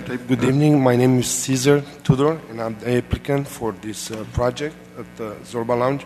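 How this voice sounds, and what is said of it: Hoarse, sick-sounding voice. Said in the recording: “apologize for my voice due to bad flu”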